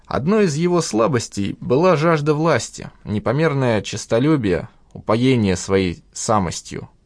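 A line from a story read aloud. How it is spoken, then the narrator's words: Sighed. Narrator (Russian): вздохнул Язев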